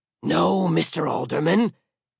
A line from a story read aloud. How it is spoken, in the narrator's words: he hissed